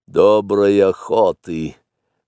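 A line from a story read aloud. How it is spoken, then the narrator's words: Gloomy. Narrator (Russian): мрачно сказал Ка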